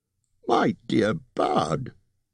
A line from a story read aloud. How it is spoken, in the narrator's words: squeaked Bilbo